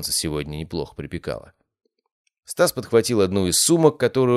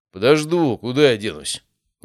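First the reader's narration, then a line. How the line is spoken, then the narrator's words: Displeased grumble. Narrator (Russian): Недовольно пробурчал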